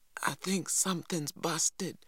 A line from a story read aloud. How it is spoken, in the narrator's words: he gasped finally